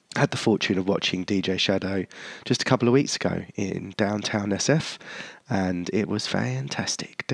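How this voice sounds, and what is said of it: Congested voice from a cold. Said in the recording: “as you can probably tell, I've got a bit of a cold”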